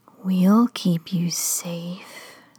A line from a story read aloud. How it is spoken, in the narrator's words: they whispered coldly